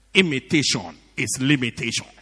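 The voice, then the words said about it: Put-on Nigerian accent. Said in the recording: “with a Nigerian accent”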